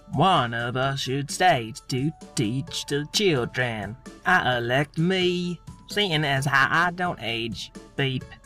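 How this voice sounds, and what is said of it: Put-on accent, almost believable. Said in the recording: “Your accent was almost believable that time until the beep.”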